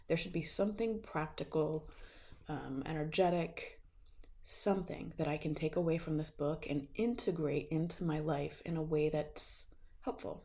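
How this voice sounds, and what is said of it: Slightly rough, under-the-weather voice. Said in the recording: “forgive my voice. I've been feeling a little bit under the weather ... finally my throat's not hurting”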